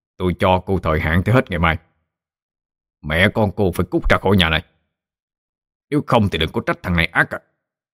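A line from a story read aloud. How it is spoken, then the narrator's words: Harsh, through gritted teeth. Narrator (Vietnamese): hắn còn gằn giọng nói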